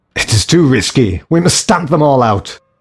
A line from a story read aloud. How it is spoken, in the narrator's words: came a shout